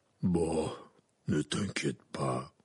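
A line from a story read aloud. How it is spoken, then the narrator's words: Soft. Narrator (French): dit Hagrid d'une voix douce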